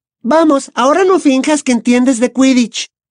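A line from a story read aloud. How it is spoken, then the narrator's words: Snapping. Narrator (Spanish): le espetó Ginny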